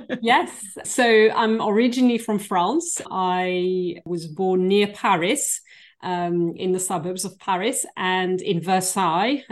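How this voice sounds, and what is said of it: French-accented English. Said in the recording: “what is that accent? It's wonderful. We could listen to her all day.”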